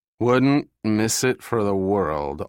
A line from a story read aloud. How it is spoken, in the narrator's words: Austin said, deliberately slurring his words